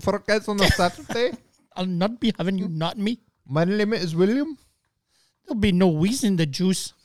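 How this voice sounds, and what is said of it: Put-on Pakistani accent. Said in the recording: “some dude from, from Pakistan ... it's got a great accent.”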